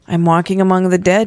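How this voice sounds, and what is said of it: Flat, toneless voice. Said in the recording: “in a flat voice.”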